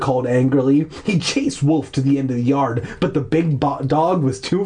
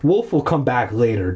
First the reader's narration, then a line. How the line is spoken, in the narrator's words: Dad said